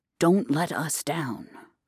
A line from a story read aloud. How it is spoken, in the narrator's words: whispered